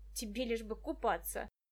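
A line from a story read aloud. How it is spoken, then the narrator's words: Grumbling. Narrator (Russian): проворчал Денис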